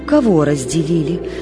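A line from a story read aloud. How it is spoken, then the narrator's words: Offhand question, woman. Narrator (Russian): спросила дама тем же небрежным тоном, каким все разговаривала с Марьей Петровной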